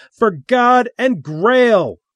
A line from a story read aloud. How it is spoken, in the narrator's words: Little Elvis shouted